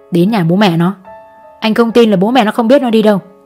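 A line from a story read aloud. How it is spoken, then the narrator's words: Hissed through teeth. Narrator (Vietnamese): Chú Đại rít qua kẽ răng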